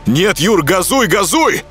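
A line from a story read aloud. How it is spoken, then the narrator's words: Shout. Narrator (Russian): крикнул я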